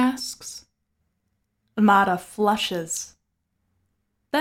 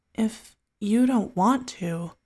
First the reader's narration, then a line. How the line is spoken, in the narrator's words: he murmurs